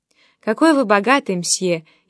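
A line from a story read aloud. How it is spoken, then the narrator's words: Sighing. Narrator (Russian): она только вздохнула и произнесла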